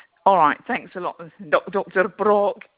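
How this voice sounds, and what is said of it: Put-on Scottish accent. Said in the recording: “I said in my Scottish accent.”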